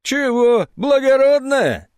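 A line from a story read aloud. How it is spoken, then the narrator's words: Woman's deep booming laugh. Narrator (Russian): тетя Клава басисто расхохоталась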